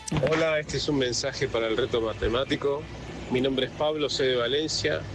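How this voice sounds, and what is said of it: Argentine or Uruguayan Spanish accent. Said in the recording (Spanish): “Con acento argentino, ... uruguayo”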